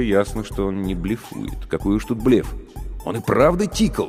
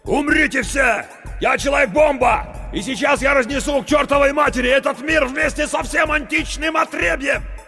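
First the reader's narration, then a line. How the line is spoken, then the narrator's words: Shouting. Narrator (Russian): Круз закричал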